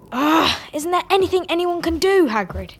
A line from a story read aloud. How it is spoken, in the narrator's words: Harry asked fiercely